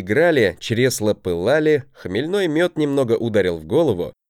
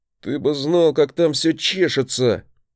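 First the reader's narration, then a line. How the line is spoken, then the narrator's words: Moaning growl. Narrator (Russian): Не то простонал, не то прорычал он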